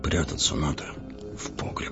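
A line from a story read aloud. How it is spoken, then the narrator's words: Frightened mutter. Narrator (Russian): бормотал бледными губами лавочник, Регаларов сосед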